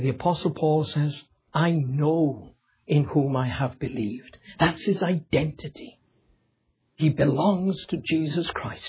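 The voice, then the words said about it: Welsh accent. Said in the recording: “you've got a funny accent. So where do you come from? And I said, I come from Wales. I was born and brought up in Wales”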